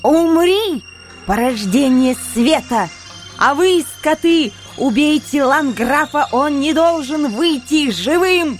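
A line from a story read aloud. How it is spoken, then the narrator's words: Vicious shout. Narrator (Russian): черная сукка злобно выкрикнула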